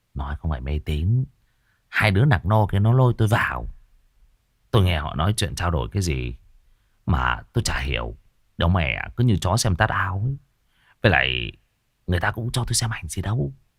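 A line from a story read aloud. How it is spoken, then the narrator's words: Whispered. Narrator (Vietnamese): Cậu Cần thì thầm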